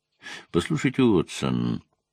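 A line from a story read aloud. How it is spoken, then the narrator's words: Quiet. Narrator (Russian): негромко сказал он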